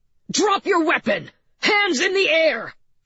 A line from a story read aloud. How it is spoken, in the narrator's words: shouted M